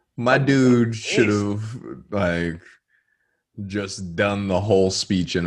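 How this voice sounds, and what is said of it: Usual voice. Nothing is said of it.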